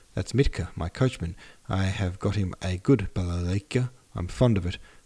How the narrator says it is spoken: said Uncle

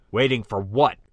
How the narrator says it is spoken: Captain Barton snapped

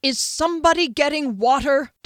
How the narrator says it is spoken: Derry yelled

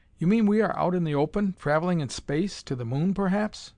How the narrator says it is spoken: The dwarf laughed

